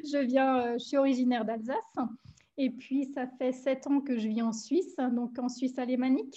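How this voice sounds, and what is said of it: Slight German-tinged French accent. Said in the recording (French): “mon accent un petit peu euh, germanophone ... vous avez l'accent alsacien ou vous avez l'accent suisse”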